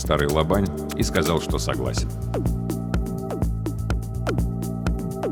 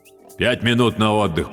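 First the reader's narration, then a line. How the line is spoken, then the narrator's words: Deep booming voice. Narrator (Russian): пробасил Докучаев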